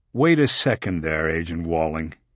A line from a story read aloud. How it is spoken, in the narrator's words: he said